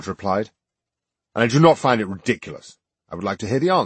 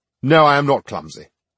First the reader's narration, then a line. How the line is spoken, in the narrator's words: Graves said irritably